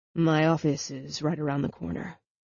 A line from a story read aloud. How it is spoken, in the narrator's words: Will said, in a slightly husky voice